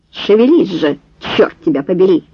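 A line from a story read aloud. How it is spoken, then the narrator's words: Growled. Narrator (Russian): прорычал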